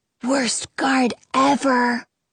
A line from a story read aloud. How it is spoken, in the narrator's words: Jonah whispers from behind me